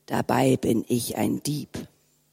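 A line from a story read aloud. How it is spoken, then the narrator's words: Whispered to himself. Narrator (German): sagte der Mann, und im Weggehen flüsterte er vor sich hin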